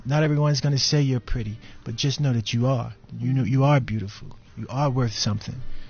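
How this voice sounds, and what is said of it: New York accent. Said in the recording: “I'm trying to turn down my New York accent, because you wouldn't hear the T if I say daughter.”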